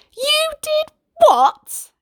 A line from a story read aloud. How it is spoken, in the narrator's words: exclaimed his mother